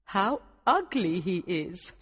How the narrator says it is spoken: the queen said

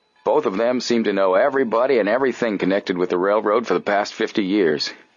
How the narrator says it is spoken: he chuckled

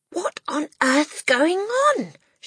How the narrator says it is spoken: she cried

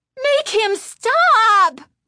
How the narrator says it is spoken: Chris screamed at her sister

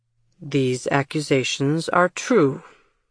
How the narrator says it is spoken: Jameson repeated in his steady voice

